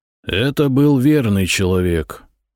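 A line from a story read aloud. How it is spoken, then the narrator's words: Bored voice. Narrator (Russian): скучающим голосом произнес Глыба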